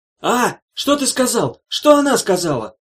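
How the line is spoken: Shell-shocked man yelling. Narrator (Russian): снова заорал контуженный

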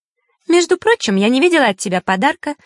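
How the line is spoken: Joking snap. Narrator (Russian): шутливо огрызнулась Захара

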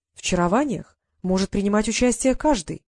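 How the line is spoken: Even voice. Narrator (Russian): ровным голосом произнес белый фир

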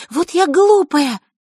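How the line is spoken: Fervent exclamation. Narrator (Russian): горячо воскликнула она

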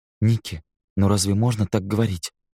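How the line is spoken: Soft, gently reproachful. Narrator (Russian): Рене сказала это мягко, с легкой улыбкой, однако Нил почувствовал в ее интонации укор

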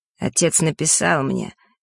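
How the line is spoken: Strained, through gritted teeth. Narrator (Russian): пересиливая себя, процедил он

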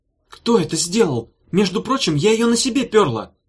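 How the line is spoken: Yelling. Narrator (Russian): завопила Радулга, которой с утра обязательно нужно было на кого-то поорать для разогрева голосовых связок

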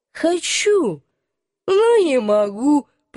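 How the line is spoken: Moaning. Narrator (Russian): простонал он

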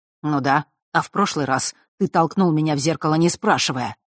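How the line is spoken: Angry reply. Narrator (Russian): зло отозвался Фэш

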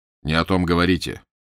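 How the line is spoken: Stern shout. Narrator (Russian): грозно прикрикнул на него Фандорин

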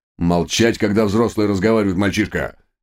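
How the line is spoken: Menacing bark. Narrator (Russian): грозно рявкнул инспектор

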